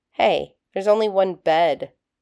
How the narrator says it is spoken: John groaned

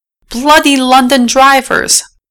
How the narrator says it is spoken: Dudley shouted after the rogue double-decker

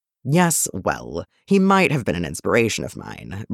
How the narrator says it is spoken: Bruce admitted with a chuckle of his own

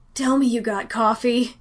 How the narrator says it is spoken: Danny gasped

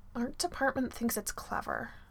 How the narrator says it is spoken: he mutters

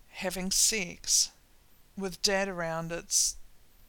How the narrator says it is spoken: Sam sighs, bends himself a little smaller and says

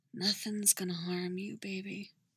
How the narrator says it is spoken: whispers into her hair

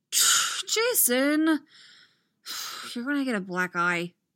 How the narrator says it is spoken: Tim sighs

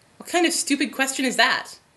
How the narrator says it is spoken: snaps Troy

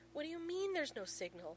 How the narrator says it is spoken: McKay splutters at his phone

